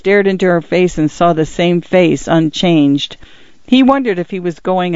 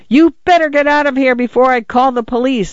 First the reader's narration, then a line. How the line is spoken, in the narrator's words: Arthur yelled